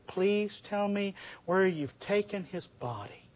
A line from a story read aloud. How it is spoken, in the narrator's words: she begged this stranger